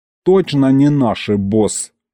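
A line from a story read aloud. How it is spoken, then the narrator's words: Snorted. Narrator (Russian): фыркнул он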